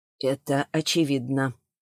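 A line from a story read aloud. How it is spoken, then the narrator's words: Barely audible. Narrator (Russian): еле слышно сказал Аржанов и повторил уже громче и тверже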